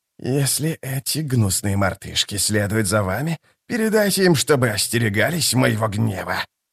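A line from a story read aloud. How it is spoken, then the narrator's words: Hissed. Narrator (Russian): прошипел Искарал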